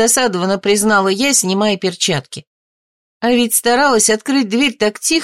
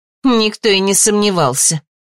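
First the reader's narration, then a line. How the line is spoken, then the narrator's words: Snorting. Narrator (Russian): фыркнула мама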